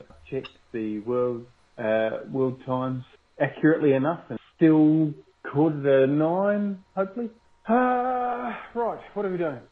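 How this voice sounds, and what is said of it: Speaks with a distinctive accent. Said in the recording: “Let's just love ... accent.”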